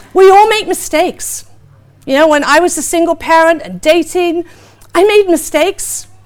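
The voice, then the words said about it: British accent. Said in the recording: “me with a British accent”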